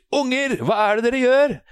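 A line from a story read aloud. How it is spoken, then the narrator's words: Screamed. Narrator (Norwegian): Hun river opp døra og skriker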